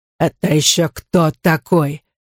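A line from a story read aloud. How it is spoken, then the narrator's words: Hoarse. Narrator (Russian): прохрипел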